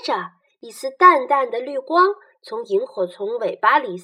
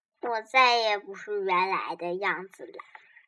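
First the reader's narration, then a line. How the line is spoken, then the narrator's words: Murmuring to itself. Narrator (Chinese): 萤火虫却喃喃自语道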